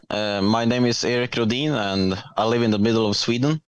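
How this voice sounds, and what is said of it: Non-American, Swedish-accented English. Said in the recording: “as the listeners can tell by your accent, you're not here in the United States”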